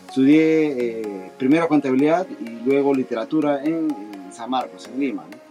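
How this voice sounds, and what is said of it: Peruvian Spanish accent. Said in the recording (Spanish): “Soy peruano, como, como ustedes podrán colegir de, mi acento”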